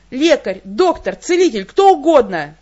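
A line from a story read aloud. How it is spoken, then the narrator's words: Shout. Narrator (Russian): крикнула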